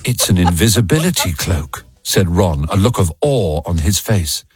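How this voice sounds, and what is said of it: British accent narration. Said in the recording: “It has to be narrated by somebody with a British accent.”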